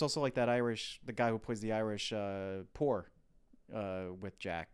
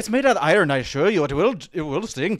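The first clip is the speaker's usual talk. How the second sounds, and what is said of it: Faint, posh British-Irish accent. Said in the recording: “a bit of a suspect Irish accent ... it's sort of Irish ... trying to be posh ... a little British Irish. It's very faint.”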